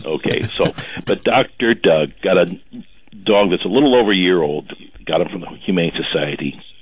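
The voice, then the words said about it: Radio announcer-like voice. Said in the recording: “You got a radio voice”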